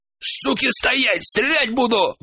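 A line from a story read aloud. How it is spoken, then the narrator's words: Shouted out. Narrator (Russian): выкрикнул Шурик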